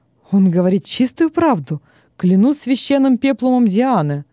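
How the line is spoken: Exclaiming. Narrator (Russian): воскликнул Вестин

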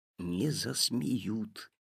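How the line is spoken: Whispered reply. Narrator (Russian): также шепотом ответил папа

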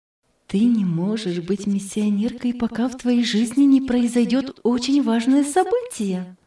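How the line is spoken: Quiet speech. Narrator (Russian): тихо сказала

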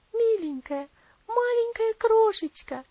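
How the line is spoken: Girl exclaiming. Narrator (Russian): воскликнула девочка

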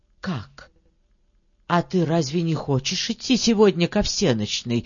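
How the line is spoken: Frightened, stern question. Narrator (Russian): испуганно и строго спрашивает няня

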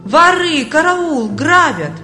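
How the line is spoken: Loud wailing. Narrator (Russian): Бедняга громко завопил

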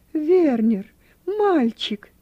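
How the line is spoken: Exclaimed. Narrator (Russian): воскликнула она

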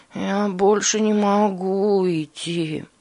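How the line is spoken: Exhausted moan. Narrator (Russian): простонал Борис и в изнеможении

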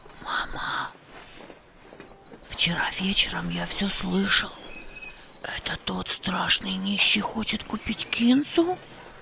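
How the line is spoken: Whispered. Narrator (Russian): прошептал Хамид

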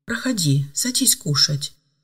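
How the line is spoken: Soft hostess invitation. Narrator (Russian): мягко пригласила хозяйка

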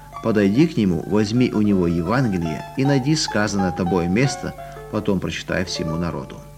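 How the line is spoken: Whisper. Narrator (Russian): как будто кто-то шепнул

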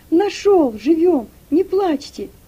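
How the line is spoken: Shout. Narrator (Russian): крикнул Игнат

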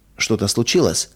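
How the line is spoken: Gentle question. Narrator (Russian): мягко спросила она

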